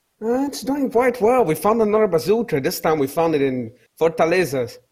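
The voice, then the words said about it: Brazilian accent. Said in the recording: “I couldn't place your accent ... Brazil”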